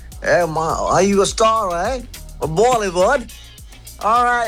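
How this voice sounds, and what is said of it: Put-on accent imitating a passerby. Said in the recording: “What was that accent? I rate it.”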